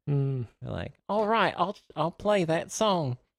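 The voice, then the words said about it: Put-on Australian accent. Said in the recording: “I changed it to Australian ... That's the best I can.”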